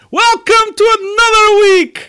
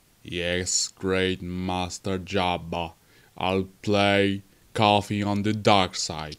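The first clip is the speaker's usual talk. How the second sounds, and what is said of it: Sad, dark, deep Alexa voice. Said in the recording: “It's me, Alexa, with a sad voice, with a dark voice, with a deep voice.”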